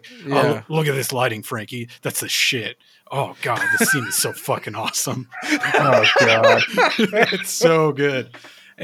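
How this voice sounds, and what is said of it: Thick gravelly New York accent. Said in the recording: “he sounds like the Artie Clay character. Like he's got a real thick New York accent with like a gravelly voice”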